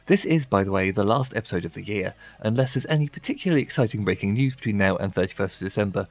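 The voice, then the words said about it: Croaky, hoarse voice. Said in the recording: “I'm a little bit under the weather, so as you can probably hear, my voice is a little bit croaky”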